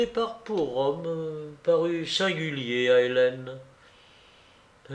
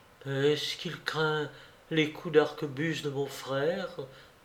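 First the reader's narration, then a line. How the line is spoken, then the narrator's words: Said to herself sadly. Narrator (French): se disait-elle tristement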